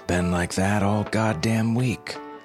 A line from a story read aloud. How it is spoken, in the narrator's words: Coretti answered